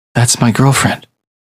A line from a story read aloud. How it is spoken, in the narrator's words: said Justin